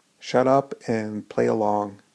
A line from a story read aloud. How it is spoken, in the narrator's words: Tim whispered